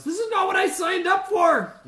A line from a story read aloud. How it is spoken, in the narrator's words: this massive flame strike hits all these guards, and one of them yells